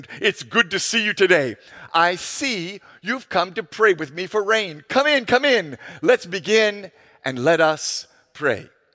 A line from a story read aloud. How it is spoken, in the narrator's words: the pastor exclaimed